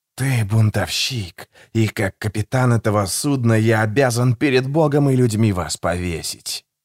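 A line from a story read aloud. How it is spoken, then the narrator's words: Breathed into ear. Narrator (Russian): выдохнул Джузеппе в ухо Гегелю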